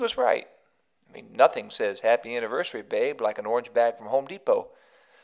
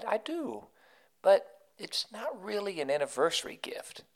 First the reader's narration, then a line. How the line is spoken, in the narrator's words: And she kindly replied